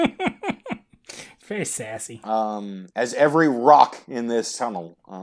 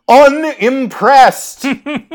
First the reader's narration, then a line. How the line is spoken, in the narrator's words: she replies in an equally booming voiced